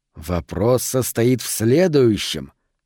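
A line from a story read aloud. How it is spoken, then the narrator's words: Thoughtful drawl. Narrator (Russian): задумчиво протянул Харпер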